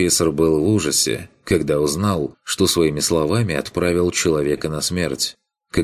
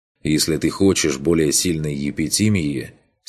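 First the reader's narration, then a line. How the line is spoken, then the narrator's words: Plain. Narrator (Russian): сказал он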